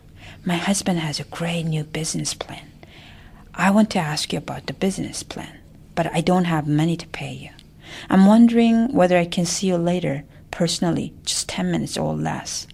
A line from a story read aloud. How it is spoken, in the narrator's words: Auntie Manga whispered to Mudan